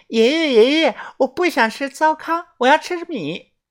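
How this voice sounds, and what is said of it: Child's voice. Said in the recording (Chinese): “又换成小孩子的声音说道”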